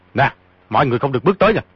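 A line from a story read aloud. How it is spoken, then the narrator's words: Threatening shout. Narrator (Vietnamese): quát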